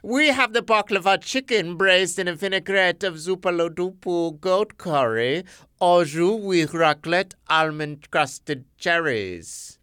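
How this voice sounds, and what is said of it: Silly put-on restaurant owner voice. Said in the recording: “I'm going to do the owner again ... I can't do this dumb voice”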